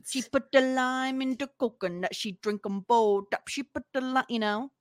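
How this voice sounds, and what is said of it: Silly put-on accent. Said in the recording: “it's said with a silly accent”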